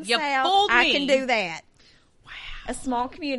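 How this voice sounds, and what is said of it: Usual voice. Nothing is said of it.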